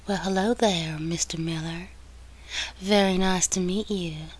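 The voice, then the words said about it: Sultry Southern woman's accent. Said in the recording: “her sexy southern accent”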